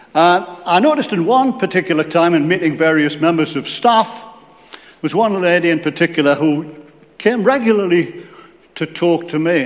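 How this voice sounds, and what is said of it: Geordie accent. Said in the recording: “I like to hear Geordie accent.”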